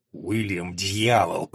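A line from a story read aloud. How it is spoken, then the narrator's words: Hissed. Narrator (Russian): прошипел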